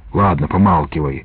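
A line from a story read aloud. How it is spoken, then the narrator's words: Whispered snap. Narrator (Russian): огрызнулся шепотом ополченец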